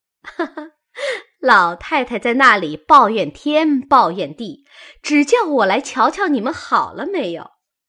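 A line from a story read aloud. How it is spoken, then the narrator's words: Laughing. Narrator (Chinese): 凤姐儿…笑道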